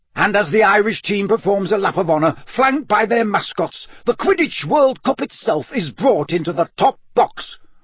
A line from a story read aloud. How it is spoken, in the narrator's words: roared Bagman